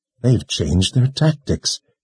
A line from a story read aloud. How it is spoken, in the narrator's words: Kalin whispered to herself